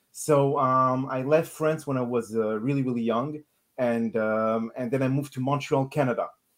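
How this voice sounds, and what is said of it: French accent. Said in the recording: “I'm sure that they're noticing some accent. ... I'm actually French.”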